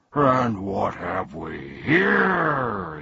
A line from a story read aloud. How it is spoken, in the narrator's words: he roared